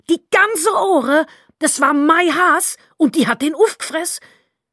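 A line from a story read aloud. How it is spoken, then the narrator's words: Scream. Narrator (German): schrie sie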